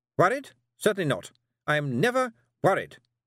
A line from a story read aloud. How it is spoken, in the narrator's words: snapped Miss Tick